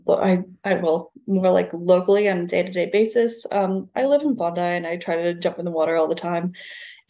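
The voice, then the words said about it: Slight non-Australian accent twang. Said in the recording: “you've got a bit of a slight non-Aussie twang in your accent.”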